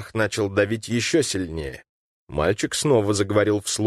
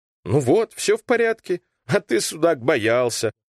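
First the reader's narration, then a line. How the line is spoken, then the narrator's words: Chuckling. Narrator (Russian): хохотнул Васютка и бодро скомандовал себе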